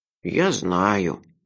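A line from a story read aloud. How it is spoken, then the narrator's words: Unhappy voice. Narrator (Russian): несчастным голосом сказала Рената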